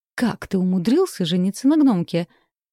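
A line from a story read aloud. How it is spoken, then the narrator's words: Indignant exclamation. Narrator (Russian): Возмущенно воскликнул Кайл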